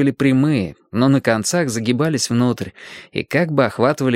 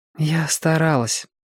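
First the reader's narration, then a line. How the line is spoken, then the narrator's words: Sighing. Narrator (Russian): вздохнула Белка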